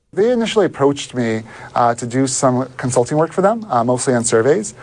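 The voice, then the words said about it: British accent. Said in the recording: “he's got the British accent”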